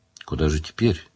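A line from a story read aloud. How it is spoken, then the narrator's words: Quiet question. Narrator (Russian): тихо спросил отец Кальб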